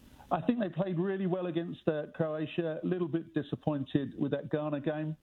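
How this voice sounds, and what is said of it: English accent. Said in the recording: “with my accent, I'm English”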